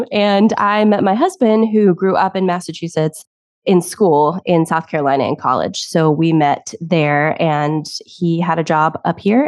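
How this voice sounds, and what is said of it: Slight Tennessee Southern accent. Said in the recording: “I was born in Tennessee. So if you hear a little bit of an accent, that's probably why.”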